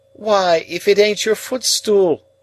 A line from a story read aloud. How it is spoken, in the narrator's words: cried Flopson